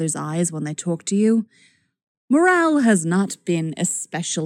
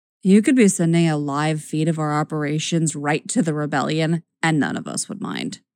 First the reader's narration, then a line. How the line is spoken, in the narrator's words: Luce says wearily